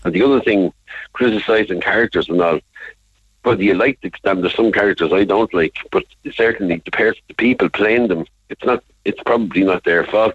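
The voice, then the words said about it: Irish Dublin accent. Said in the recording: “Your accent isn't lost on me. You're dub, are you? ... so maybe Dubliners ... only Cork people can hear my Dublin accent”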